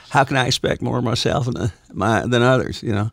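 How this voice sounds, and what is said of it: Imitates another person's voice. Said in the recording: “You do the voice? ... That's a good Matthew.”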